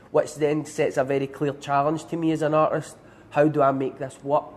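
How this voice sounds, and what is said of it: Scottish accent. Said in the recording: “it was important to retain my accent ... it would have to be with the accent ... I just happen to be Scottish”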